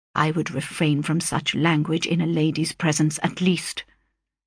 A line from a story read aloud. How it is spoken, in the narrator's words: said Mr